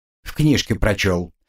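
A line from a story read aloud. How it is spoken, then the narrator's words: Grumbled. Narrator (Russian): проворчал Карл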